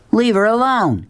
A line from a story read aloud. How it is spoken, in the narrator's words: shouted, not believing that the words were coming from him